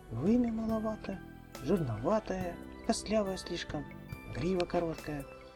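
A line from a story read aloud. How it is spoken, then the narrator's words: Muttering. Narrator (Russian): бормотала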